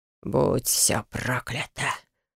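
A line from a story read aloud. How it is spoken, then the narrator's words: Exhaled. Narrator (Russian): выдохнул похититель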